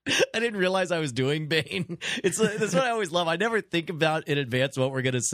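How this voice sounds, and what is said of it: Usual voice. Nothing is said of it.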